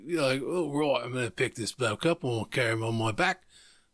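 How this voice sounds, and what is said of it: Put-on Australian accent. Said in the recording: “Except Nana has an English accent, not an Australian accent. ... Nana sounds nothing like this ... when did Crocodile Dundee show up to this fucking party?”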